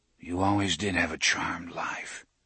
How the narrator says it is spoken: he whispered to it

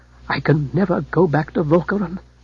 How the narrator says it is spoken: murmured Alfred

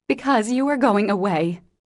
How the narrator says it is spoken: that undignified creature answered, with an irrepressible sob

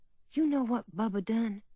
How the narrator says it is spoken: she said in a quiet voice

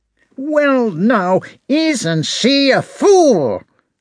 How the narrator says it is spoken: shouted the prince

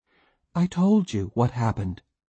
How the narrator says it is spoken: she said calmly

